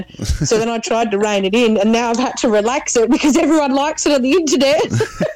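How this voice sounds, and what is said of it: Broad bogan Australian accent. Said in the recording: “my voice is sometimes it doesn't sound as bogan ... really drag out some of the letters ... everyone overseas thinks my accent's great, but then over here everyone's like, oh, God, your voice is pretty bad”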